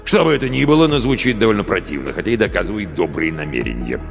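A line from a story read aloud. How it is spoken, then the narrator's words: Grumbling. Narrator (Russian): проворчал Гэт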